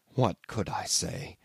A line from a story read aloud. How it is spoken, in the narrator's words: he asked in the same low tone